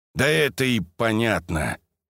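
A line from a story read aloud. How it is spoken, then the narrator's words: Gloomy. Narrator (Russian): мрачно подтвердил Сорокин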